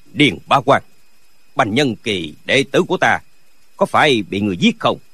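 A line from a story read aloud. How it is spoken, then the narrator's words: Cold question. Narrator (Vietnamese): có tiếng người lạnh lùng hỏi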